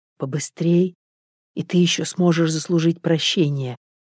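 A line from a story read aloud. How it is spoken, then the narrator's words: Almost whispering. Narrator (Russian): произнес Данила почти шепотом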